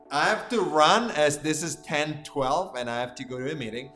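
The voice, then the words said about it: Italian-accented English, drops H sounds. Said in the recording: “I should get rid of my Finnish accent... Or Italian accent... I say my air, meaning my hair, but I say without the H”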